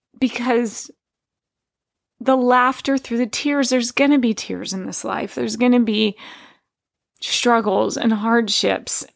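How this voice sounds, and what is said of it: Emotional, tearful voice. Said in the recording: “I'm getting emotional.”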